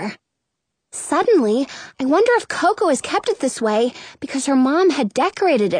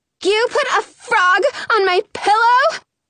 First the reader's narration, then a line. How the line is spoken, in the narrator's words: She screams